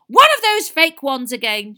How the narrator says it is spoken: shouted

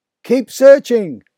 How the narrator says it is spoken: father shouted

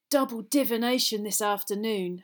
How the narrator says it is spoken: Harry groaned

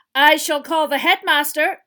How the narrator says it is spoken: shouted Mrs

